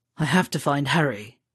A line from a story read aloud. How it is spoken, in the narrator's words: Sirius muttered into the side of his neck